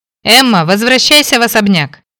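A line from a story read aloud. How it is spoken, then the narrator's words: Shouted. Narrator (Russian): прокричал Фрэнк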